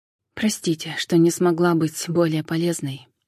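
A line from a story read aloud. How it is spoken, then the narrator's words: Sighing. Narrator (Russian): вздохнула Джен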